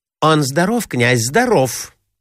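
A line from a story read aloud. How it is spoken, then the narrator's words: Hurried reply. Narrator (Russian): торопливо ответила Марья Александровна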